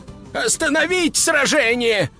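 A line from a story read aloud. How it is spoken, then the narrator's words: Yelled. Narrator (Russian): завопил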